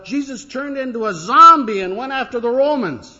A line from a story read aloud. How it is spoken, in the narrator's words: one of the little boys shouted up